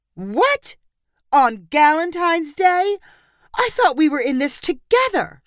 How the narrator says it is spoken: Chandra cried

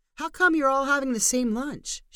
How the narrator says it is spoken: She called out

